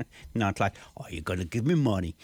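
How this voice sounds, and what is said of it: Menacing mobster-style voice. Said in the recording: “that was a very good impersonation. ... It almost scared me”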